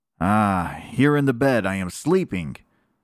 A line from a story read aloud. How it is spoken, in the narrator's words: cried the third drop of blood